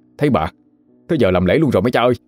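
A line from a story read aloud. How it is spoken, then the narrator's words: Startled cry. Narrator (Vietnamese): Lan giật mình la lên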